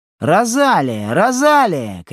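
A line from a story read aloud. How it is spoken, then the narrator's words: Sing-song shouting. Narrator (Russian): кричала она нараспев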